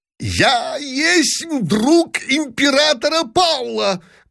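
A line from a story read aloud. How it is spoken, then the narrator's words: Shouting. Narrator (Russian): крикнул барон Дибич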